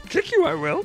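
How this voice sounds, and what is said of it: Yoda impression, slightly Kermit-like. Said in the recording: “give me your best Yoda voice. ... Wow, that's pretty good. ... It wasn't bad. ... Started a little Kermit the Frog-ish.”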